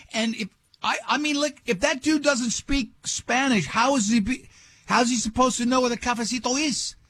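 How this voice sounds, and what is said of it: Slips into a put-on accent. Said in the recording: “I fell right into the accent.”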